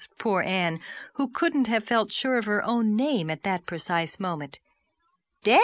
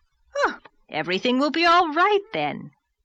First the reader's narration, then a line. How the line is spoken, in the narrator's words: cried the rosy lady jubilantly